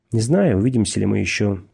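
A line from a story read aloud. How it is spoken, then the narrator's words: Calm. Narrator (Russian): сказал он также спокойно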